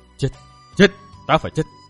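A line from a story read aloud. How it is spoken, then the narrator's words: Hissing. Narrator (Vietnamese): Chàng rít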